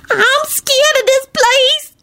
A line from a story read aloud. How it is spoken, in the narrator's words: Shalonda shrieked